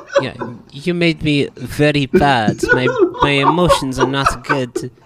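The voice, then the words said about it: Thick put-on Russian accent. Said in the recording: “like a thick Russian accent.”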